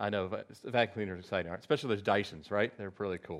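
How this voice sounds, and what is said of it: Usual voice. Nothing is said of it.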